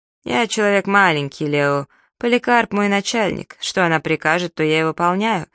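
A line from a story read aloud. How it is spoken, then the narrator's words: Plain. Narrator (Russian): ответил мистер Лафайет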